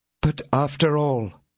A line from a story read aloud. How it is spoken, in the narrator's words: said the lady in a hollow voice